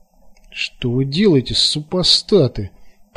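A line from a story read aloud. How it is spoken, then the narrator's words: Moan. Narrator (Russian): простонала Ефросинья Карповна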